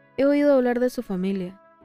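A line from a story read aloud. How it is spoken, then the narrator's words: Gloomy tone. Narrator (Spanish): dijo Ron en tono lúgubre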